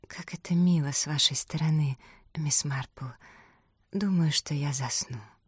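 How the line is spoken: Near whisper. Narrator (Russian): Голосом, больше похожим на шепот, она произнесла

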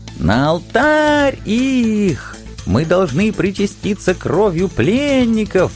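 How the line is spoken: Elderly women ecstatic yelling. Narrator (Russian): восторженно завопили людоедствующие пенсионерки

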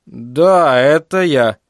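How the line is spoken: Slow speech. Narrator (Russian): он заговорил медленно

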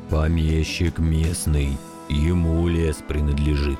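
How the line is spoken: Muffled, hollow reply. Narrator (Russian): глухо ответил дядя Миша

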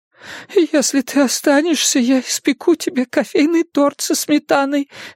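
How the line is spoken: Babbling. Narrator (Russian): лепетала Майра

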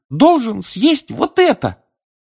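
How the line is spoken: Squeak. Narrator (Russian): пискнул эльф

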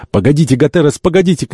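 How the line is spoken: Shouting. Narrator (Russian): крикнул доктор

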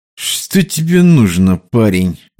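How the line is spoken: Through gritted teeth. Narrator (Russian): процедил диспетчер

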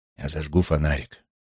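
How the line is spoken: Whispered. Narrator (Russian): Говорить было запрещено, поэтому я прошептал

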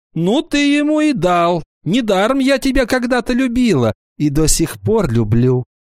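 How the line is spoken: Shouting. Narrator (Russian): Вала закричала

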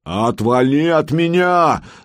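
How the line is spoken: Man yelling. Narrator (Russian): заорал мужик

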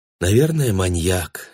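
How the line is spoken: Sigh. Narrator (Russian): вздохнула мать

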